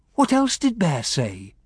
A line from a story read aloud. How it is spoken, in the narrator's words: She sighed